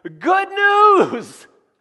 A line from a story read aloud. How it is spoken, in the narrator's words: he is shouting